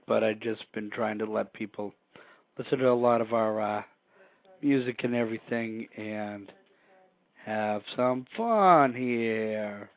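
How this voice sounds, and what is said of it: Hoarse, froggy voice. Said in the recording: “I've been trying to save my voice ... my voice is frog”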